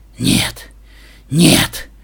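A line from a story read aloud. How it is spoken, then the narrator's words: Muttering under breath. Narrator (Russian): бормотал себе под нос доктор Гуль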